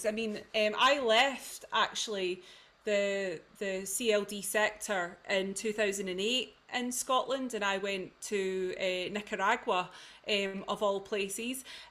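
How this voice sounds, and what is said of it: In-between central Scottish accent. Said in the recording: “my background in youth and community work is in the central belt of Scotland, predominantly the west. I've got an in-betweeny accent, I'm from the Shots.”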